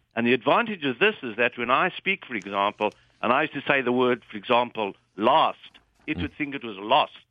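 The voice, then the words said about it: British-type accent. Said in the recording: “As you can hear, I've got a British-type accent.”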